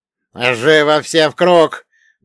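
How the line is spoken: Composed bark. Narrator (Russian): гаркнул Гюнтер, так и не потерявший самообладание

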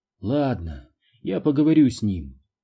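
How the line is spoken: Tired sigh. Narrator (Russian): устало вздохнула она

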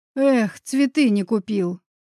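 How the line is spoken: Grumbling. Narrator (Russian): заворчал Гриша

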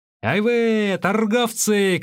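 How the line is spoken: Group shouting. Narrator (Russian): кричали

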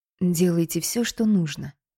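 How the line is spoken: Quiet. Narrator (Russian): тихо проговорила

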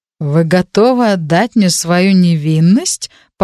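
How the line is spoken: Astonished tone. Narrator (Russian): пораженным тоном сказал он

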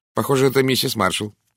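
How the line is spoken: Dry reply. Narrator (Russian): сухо ответила мисс Брюстер

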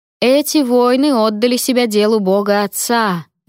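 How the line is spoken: Loud declaration. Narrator (Russian): громко произнес Клавер

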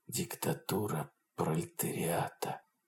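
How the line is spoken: Whispered, smiling, in mortal anguish. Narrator (Russian): прошептал он, улыбаясь, сжимая в смертельной тоске ледяные пальцы

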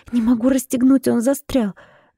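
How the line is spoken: Helpless breathy exhale. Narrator (Russian): Беспомощно выдохнула

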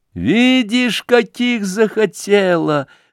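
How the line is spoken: Laughing shouts, crowd of girls. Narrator (Russian): закричала со смехом девичья толпа

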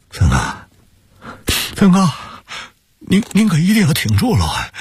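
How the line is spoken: Choked sobbing. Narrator (Chinese): 王泽民哽咽着

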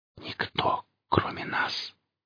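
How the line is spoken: Fading, faint whisper. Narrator (Russian): Теряя сознание, Вятлов прошептал

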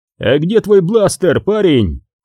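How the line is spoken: Shouted. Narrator (Russian): крикнул Хан

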